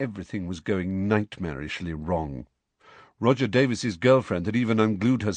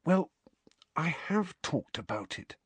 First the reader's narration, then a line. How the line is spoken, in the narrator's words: Harry said in a whisper